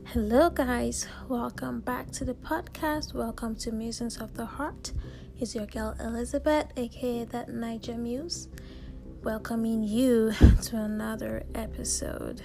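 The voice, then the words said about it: Slightly scratchy voice. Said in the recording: “my voice sounds a little bit scratchy”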